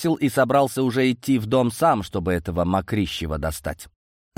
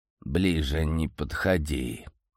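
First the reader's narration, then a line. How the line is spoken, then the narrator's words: Hoarse interrupting. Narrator (Russian): выдает дядюшка, сипло перебивая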